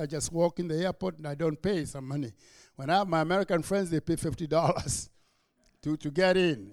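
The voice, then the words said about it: Kenyan accent. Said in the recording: “as soon as I open my mouth, you realize my accent is Kenyan”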